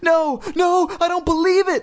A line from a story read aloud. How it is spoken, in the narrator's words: Lindy shrieked, seeing the dummy move